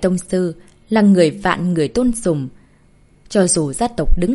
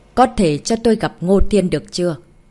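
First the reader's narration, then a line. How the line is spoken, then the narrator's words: Cold, soft voice. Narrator (Vietnamese): Giọng nói lạnh lùng của Nhất Bạch Sơn Tịch nhẹ nhàng vang lên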